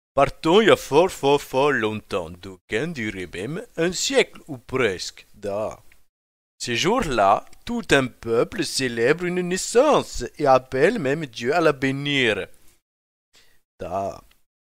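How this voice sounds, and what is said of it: Put-on Russian accent. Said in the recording (French): “je vote pour un accent russe”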